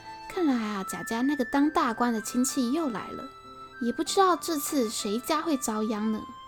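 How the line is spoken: Sighing, muttering to himself. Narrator (Chinese): 罗百祥叹了口气，自言自语地说

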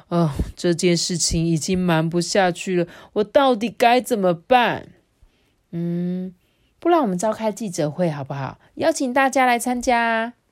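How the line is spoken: Father angry, sighing. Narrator (Chinese): 爸爸怒气冲冲的…叹气的说

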